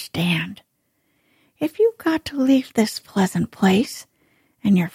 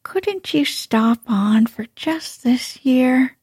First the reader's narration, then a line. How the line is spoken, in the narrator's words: suggested wistfully